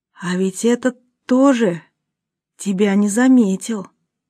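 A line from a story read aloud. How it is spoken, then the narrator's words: Whispered. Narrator (Russian): шепотом произнесла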